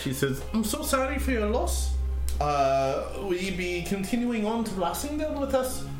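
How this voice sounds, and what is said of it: Attempted Welsh accent, higher pitch. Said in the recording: “I tried looking Welsh accent. That's hard. It's gonna be just ... at a higher pitch.”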